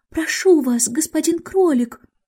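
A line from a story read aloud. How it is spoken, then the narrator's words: Quiet, timid. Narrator (Russian): она проговорила тихим, робким голосом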